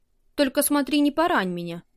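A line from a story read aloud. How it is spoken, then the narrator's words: Gloomy. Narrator (Russian): мрачно произнесла Вика, когда узнала, что поединок будет вестись на обычных мечах, а не на бамбуковых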